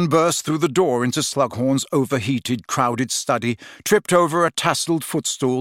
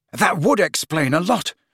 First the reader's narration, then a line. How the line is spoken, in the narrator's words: panted Harry, now positively wrestling with Ron